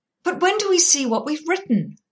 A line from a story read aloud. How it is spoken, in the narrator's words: asked Alex impatiently